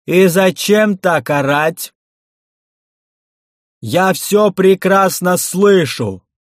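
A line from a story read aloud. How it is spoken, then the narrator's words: Unexpectedly powerful voice. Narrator (Russian): Неожиданно мощным голосом ответили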